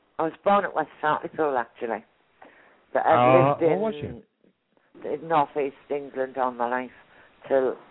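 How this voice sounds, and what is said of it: Warm North East English accent. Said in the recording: “I love your accent. You're from North. ... I love your accent. It's so warm and cuddly”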